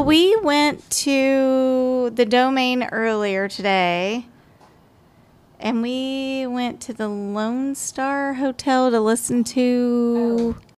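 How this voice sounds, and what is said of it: East Texas accent. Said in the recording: “I can really hear your East Texas accent ... I'm even trying to subdue it a little bit ... It's in there. Like, you can't subdue it.”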